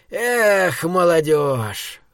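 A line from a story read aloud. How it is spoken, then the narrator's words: Old man's chuckle into beard. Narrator (Russian): хмыкнул в бороду дед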